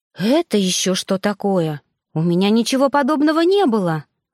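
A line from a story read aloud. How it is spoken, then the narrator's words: Indignant. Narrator (Russian): вышла возмущенно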